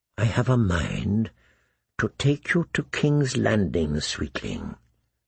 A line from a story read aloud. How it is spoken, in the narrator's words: he whispered